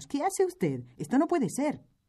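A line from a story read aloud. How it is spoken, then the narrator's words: Several voices exclaiming. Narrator (Spanish): exclamamos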